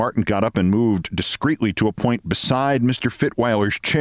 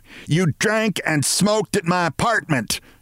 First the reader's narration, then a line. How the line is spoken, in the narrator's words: she bawled at Mr